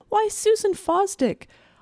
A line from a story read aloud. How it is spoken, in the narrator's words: exclaim in a fine, unhindered voice, as if she were calling across a field